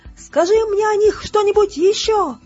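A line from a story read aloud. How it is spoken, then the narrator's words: Shouted. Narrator (Russian): крикнула она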